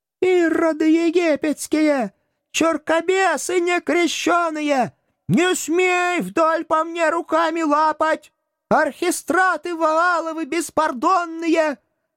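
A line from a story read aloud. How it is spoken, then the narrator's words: Strained wailing yell. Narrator (Russian): Надрывно вопил гражданин Груздев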